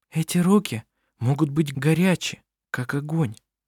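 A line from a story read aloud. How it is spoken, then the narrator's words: Whispered to others. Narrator (Russian): прошептала Винга остальным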